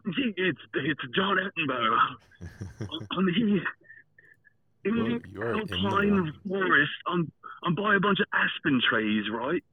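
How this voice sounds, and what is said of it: Terrible British nature-narrator impression. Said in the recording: “I know there's a terrible David Attenborough ... British accent”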